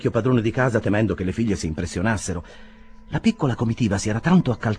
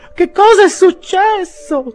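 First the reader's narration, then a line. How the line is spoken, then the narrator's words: Women shrieking. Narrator (Italian): strillarono le signore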